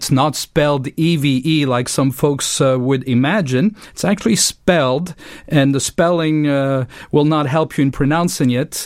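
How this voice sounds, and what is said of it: French-Swiss accent. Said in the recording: “as you can tell from my accent, I'm from overseas, from the French-speaking part of Switzerland”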